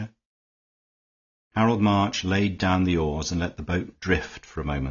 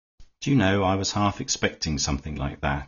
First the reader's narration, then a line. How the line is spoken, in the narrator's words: he said